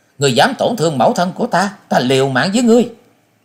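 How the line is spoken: Wailing mournfully. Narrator (Vietnamese): Ngô Như Anh gào lên thê lương

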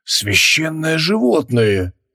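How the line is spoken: Reverent breathy exclamation. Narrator (Russian): выдохнул он, с уважением

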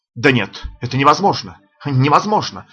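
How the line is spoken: Sudden exclamation. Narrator (Russian): вдруг сорвав маску, воскликнул Бус

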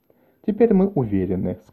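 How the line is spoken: Soft. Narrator (Russian): сказала Кальдера мягко

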